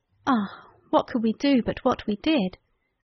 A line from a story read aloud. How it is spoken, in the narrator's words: We sighed